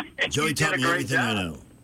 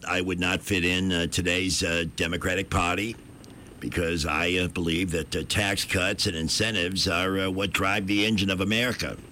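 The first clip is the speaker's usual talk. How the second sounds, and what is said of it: President Kennedy impression. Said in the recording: “I like his President Kennedy the best.”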